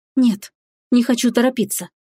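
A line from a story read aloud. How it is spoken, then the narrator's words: Whispering. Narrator (Russian): прошептала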